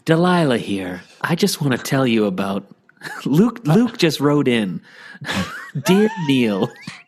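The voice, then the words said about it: Bad impression of radio host Delilah. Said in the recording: “This is a bad Delilah impression.”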